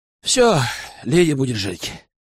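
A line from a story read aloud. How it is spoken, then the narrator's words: Weary healer. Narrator (Russian): устало произнес целитель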